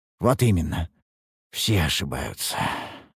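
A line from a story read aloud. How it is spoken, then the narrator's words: Sighed. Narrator (Russian): вздохнул я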